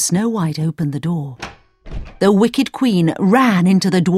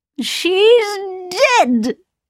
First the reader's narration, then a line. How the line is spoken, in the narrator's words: cried the wicked queen